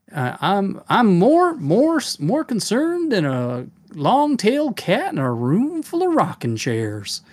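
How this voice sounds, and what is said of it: Put-on Southern US accent. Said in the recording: “Southern accent, kind of like down like Georgia, you know, or Savannah ... if I could do my Southern accent guy”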